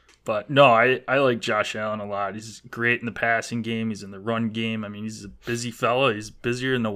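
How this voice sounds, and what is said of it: Usual voice. Nothing is said of it.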